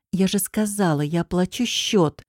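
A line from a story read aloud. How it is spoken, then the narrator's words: Hissed through teeth. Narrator (Russian): шиплю сквозь зубы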